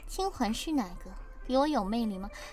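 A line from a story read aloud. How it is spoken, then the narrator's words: Lazy murmur. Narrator (Chinese): 慵懒喃喃的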